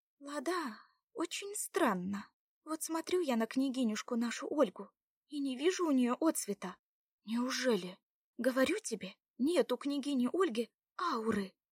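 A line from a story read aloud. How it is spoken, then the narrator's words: Quiet whisper in ear. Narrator (Russian): тихо прошептала Заряна Ладе на ухо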